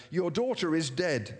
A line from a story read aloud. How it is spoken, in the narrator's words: said